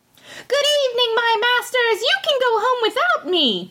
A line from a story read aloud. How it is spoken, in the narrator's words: cried he to them, laughing